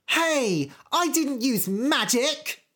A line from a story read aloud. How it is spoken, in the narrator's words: shouted Goldilocks